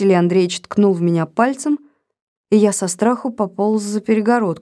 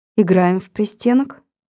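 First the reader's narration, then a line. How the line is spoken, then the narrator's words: Calm reply. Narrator (Russian): спокойно ответила Лидия Михайловна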